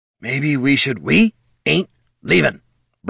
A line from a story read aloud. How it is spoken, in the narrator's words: Bert growled